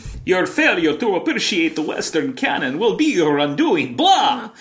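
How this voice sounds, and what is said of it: Count-style vampire voice. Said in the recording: “Talk Like a Vampire ... All vampires apparently sound like the Count from Sesame Street.”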